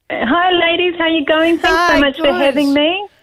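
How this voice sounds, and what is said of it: New Zealand accent. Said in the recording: “Have I detected a Kiwi accent”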